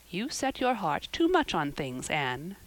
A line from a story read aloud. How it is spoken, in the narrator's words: said Marilla with a sigh